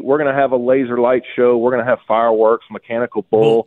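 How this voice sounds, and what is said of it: Excited, enthusiastic voice. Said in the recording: “hear the excitement in my voice.”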